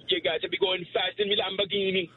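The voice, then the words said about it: Put-on Jamaican accent. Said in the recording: “Jamaican accent”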